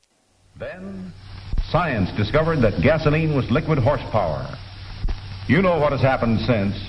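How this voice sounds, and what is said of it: Mid-Atlantic accent, old newsreel style. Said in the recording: “I love that accent... It's a mid-Atlantic accent, isn't it?... you only get that from like 1940s, 1950s, you know, science reels”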